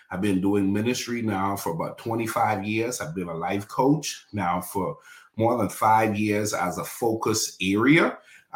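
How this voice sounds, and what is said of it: Bahamian accent. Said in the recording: “you hear an accent that's from the Bahamas”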